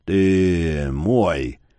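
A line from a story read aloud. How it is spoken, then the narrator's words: Monstrous hiss. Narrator (Russian): шипело невидимое чудовище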